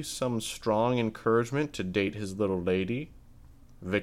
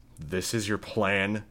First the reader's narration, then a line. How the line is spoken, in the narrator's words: Victor sneered